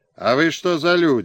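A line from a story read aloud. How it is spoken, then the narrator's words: Shouted hail, soldier. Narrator (Russian): окрикнул солдат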